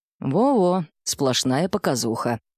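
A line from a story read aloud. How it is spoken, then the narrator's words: Wry snort. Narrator (Russian): хмыкнул Сергей Полканович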